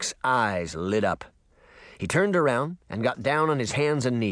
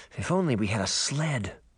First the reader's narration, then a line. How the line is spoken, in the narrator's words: she mumbled